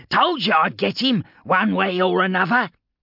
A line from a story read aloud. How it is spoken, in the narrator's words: the Medicae cackled